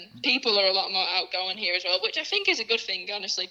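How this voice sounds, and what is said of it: English accent. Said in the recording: “fascinated with your accent ... you're from England”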